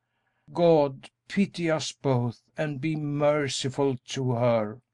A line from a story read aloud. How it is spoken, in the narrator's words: In his anguish he groaned